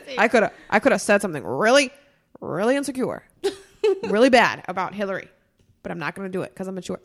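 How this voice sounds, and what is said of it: Imitates another person's voice. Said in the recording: “my Trump impression? ... It sounded like Barack Obama.”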